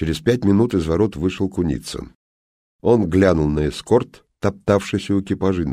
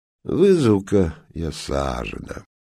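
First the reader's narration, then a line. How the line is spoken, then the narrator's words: Lazy drawl. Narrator (Russian): лениво проговорил атаман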